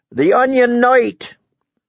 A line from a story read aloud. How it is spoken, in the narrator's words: shouted